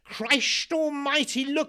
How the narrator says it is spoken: shouted

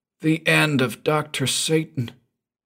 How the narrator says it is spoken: breathed John Weldman at last

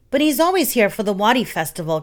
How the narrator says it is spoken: Cat cried

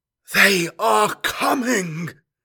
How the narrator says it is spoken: gasped the dying astropath

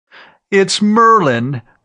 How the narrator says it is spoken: Fawzi almost screamed

